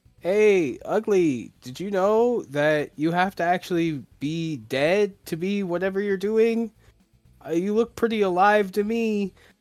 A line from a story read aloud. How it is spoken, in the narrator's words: he just shouts